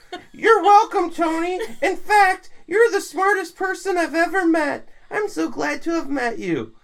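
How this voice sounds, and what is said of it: High Mickey Mouse-like impression voice. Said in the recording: “Why does Josh sound like Mickey Mouse all of a sudden? ... I was saying it as if Josh said it ... I did such a good impression of Josh.”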